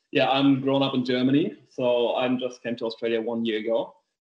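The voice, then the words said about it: Heavy German accent. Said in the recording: “a heavy German accent”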